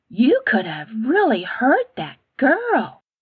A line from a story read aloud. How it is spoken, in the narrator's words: Lizzie said in a soft voice